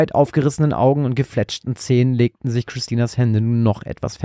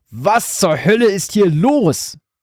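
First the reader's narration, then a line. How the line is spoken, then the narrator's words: Roaring, out of breath. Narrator (German): brüllte ihr Vater keuchend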